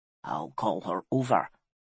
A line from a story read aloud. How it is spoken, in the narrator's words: whispered Ironhand